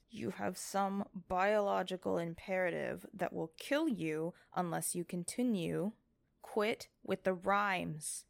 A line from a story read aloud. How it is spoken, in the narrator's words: she said through gritted teeth